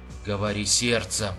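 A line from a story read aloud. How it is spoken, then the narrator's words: Whispered. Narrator (Russian): прошептал Нейландс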